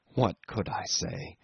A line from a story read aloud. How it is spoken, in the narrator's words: he asked in the same low tone